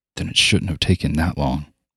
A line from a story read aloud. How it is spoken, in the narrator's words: Marcus said under his breath